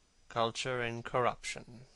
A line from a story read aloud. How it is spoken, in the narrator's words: murmured Dorian